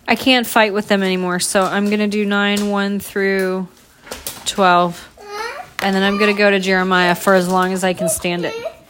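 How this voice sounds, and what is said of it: Tired, strained voice. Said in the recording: “my voice wasn't so tired ... my voice is suffering”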